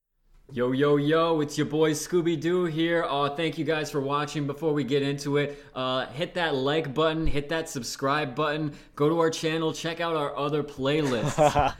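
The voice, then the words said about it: Bad YouTube show host impression. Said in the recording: “like bad radio VJs ... doing an impression of like a bad YouTube show host”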